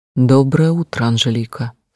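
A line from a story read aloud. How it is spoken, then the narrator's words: Forced calm voice. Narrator (Russian): сказал, стараясь, чтобы мой голос звучал спокойно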